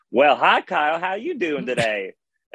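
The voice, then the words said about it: Southern drawl. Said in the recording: “why do you have a Southern drawl?”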